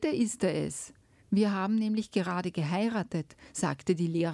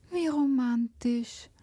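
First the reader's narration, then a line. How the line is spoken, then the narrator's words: Sighing. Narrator (German): seufzte Hanna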